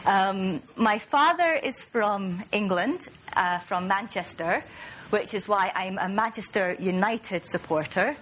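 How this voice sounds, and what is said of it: Mild northeast Scottish accent. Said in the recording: “my strange accent ... I'm from Aberdeen in northeast Scotland, and that accounts for the Scottish accent, which isn't too pronounced ... you might hear a few words pronounced in a slightly odd way”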